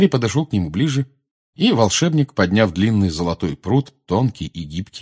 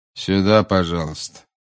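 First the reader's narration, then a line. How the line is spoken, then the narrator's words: Bored voice. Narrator (Russian): сказал дежурный скучающим голосом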